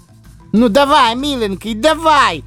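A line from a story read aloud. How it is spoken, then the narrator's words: Fox bellowing at full volume. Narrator (Russian): Во все горло орал лис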